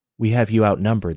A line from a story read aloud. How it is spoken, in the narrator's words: the old woman said quietly to Jenny